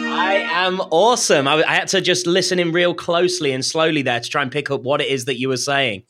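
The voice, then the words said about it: British accent. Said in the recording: “my co-host from across the pond, the guy with the funny accent who doesn't think he has one”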